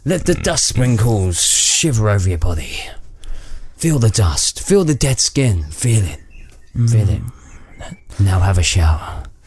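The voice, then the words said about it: Exaggerated sultry sexy voice. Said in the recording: “That was my sexy voice.”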